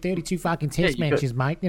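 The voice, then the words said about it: Nasal imitation of another person's voice. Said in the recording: “most people can do a bit of a Jones, can't they? ... It is distinctly nasal, his voice.”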